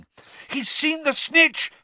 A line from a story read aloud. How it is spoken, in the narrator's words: Harry shouted